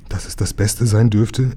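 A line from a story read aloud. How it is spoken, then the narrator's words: Anxious reply. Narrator (German): erwiderte Herr Turtur ängstlich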